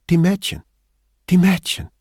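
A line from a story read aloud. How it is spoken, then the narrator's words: Bright voice. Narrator (German): sagte mit heller Stimme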